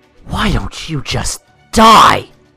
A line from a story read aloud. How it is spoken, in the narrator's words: Jeff said in an angrily hateful voice